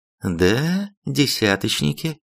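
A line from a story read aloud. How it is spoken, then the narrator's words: Calm. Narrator (Russian): спокойно ответила командир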